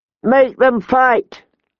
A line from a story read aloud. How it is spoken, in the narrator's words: Lord Robert called out